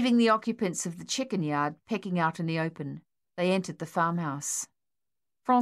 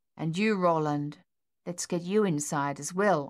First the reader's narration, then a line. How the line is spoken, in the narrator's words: Antoine said